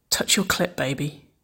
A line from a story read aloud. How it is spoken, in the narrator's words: Nicole murmured, her lips caressing the shell of Waverley's ear